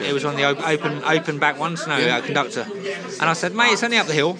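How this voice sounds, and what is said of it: South London accent. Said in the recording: “you haven't lost your South London accent”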